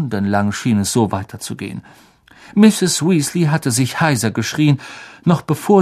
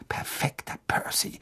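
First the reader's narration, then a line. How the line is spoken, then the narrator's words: Murmured. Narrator (German): murmelte Fred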